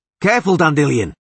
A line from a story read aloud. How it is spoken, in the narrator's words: shouted the Witcher